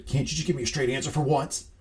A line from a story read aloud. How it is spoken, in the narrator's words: Nate barks at Beard